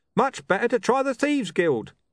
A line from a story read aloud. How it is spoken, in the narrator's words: a man yelled